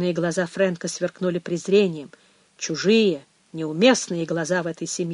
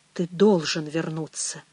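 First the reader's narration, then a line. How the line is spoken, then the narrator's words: Barely audible. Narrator (Russian): еле слышно выговорил Пэдди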